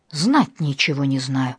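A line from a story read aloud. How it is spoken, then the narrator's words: Hissed. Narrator (Russian): прошипел Николаша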